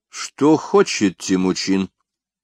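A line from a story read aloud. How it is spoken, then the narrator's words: Cold question. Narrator (Russian): холодно спросил Шейнин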